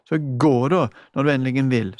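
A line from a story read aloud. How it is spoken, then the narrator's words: Shrieking. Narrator (Norwegian): skrek hun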